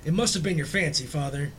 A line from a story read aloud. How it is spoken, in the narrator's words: said his wife, regarding him anxiously